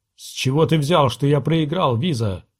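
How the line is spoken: Growled. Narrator (Russian): прорычал принц

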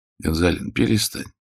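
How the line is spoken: Weary. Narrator (Russian): устало сказал Нестор Васильевич

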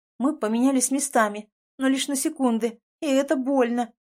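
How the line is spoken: Breathless moaning. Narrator (Russian): простонала, восстанавливая дыхание

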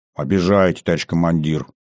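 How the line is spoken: Mild grumble. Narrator (Russian): без особой обиды в голосе пробурчал

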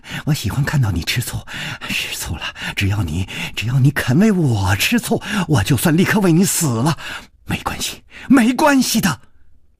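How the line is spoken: Soft, tender. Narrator (Chinese): 宫南燕柔声说

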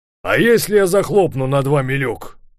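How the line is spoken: Shouted. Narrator (Russian): крикнул

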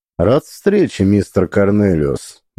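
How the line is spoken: Even, overly calm. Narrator (Russian): Мой голос прозвучал ровно, может даже слишком спокойно

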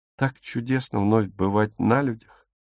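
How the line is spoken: Whisper. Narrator (Russian): прошептала

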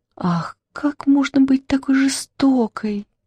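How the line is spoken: Sighing. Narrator (Russian): вздохнула Черная Королева

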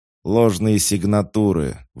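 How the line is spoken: Howling. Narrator (Russian): взвыл Зингер

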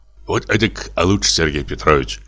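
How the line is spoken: Mutter. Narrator (Russian): забормотал он

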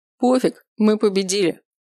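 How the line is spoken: Snort. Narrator (Russian): хмыкнул Макс

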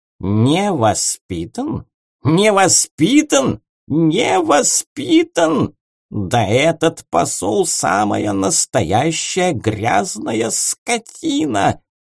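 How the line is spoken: Hissing cat, indignant. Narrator (Russian): прошипел кот

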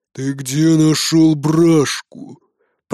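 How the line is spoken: Growled. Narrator (Russian): прорычал Бродди

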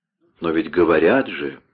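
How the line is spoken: Sad. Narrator (Russian): печально произнес Вольфганг

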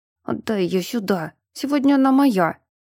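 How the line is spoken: Through gritted teeth. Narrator (Russian): процедил сквозь зубы

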